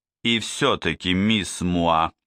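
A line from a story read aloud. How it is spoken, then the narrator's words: Stern question. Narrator (Russian): спросил Двали все тем же строгим голосом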